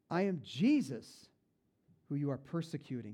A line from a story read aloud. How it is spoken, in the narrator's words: he replied